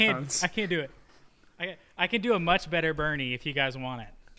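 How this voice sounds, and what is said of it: Usual voice. Nothing is said of it.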